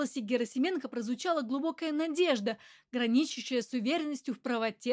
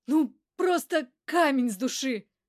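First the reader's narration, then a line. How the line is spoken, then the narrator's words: Relieved exhale. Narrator (Russian): Выдохнул облегченно Герасименко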